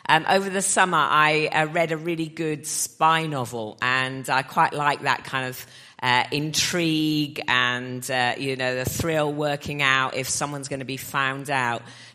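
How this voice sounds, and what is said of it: Lower, congested voice from a cold. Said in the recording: “I have got a little bit of a summer cold, so my voice is kind of an octave lower”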